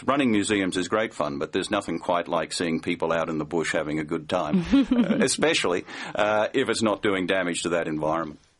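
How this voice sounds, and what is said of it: Australian accent. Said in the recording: “you're a native of Australia, as our listeners can probably tell by your beautiful accent”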